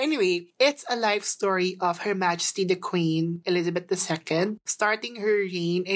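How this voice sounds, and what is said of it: Usual voice. Nothing is said of it.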